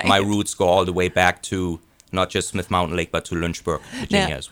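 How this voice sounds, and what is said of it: Speaks with a foreign accent. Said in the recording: “You have an accent.”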